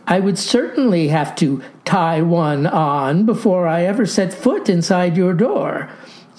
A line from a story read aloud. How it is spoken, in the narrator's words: says I, with a chuckle